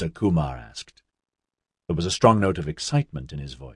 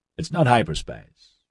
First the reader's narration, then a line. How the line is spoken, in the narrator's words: Nigel answered slightly too quickly